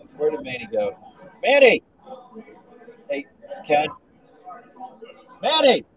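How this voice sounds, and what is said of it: Yelling a name loudly. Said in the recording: “I'm yelling”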